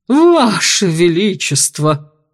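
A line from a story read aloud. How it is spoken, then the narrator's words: Exclamation. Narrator (Russian): воскликнул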